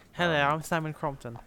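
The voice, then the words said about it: Impression of a proper British voice. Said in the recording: “a proper British person ... That's my impression ... it's actually pretty decent.”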